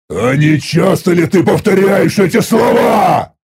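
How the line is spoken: Furious roar. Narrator (Russian): Взревел я от ярости

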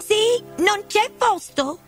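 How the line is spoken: Group shouting. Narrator (Italian): gridarono

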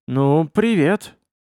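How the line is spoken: Confused, into phone. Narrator (Russian): все так же растерянно говорю в трубку

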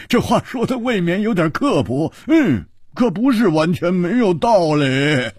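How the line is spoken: Loud laughter. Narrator (Chinese): 胡铁花大笑

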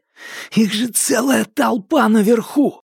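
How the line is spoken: Yelling right into ear. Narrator (Russian): заорал Томас в самое ухо Минхо

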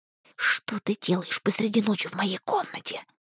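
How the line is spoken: Displeased hiss. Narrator (Russian): зашипела недовольно

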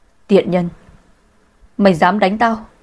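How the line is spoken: Angry. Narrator (Vietnamese): giận dữ nói

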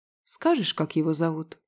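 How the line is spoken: Calm, gentle request. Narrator (Russian): Спокойно и даже ласково попросила Фаина

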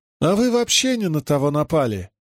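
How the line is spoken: Unexpectedly thin high voice. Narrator (Russian): ответил Риналь неожиданно тонким голосом

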